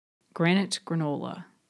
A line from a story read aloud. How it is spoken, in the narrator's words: muttered